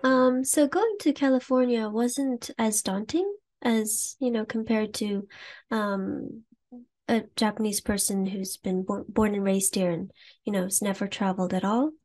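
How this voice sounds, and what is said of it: American accent. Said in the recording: “I do have an American accent, although I'm Japanese.”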